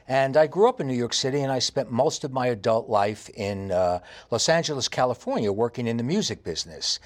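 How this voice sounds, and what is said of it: Heavy New York accent. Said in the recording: “I have a very heavy New York accent.”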